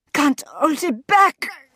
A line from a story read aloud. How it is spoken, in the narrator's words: grunted the counselor